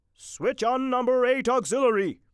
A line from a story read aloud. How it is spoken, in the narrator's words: shouted